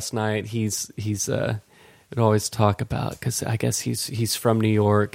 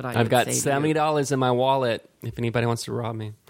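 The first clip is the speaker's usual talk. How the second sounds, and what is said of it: Bad put-on New York accent. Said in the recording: “horrible New Yorker accent”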